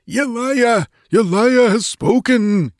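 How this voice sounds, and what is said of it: Exalted, fervent crying voice. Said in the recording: “He cried in an exalted voice.”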